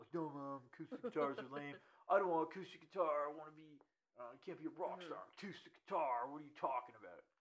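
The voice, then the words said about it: Imitating his childhood voice. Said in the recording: “I do a terrible impression of myself when I was 10. I did not sound like that.”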